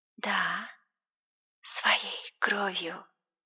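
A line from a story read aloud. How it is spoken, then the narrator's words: Whisper. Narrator (Russian): снова прошептала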